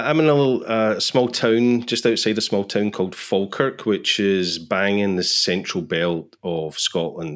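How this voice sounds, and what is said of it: Scottish accent. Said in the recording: “let's start with the accent. No, you're not from Texas. ... I'm from Scotland.”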